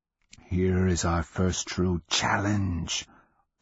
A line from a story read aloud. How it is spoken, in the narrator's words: voice whispered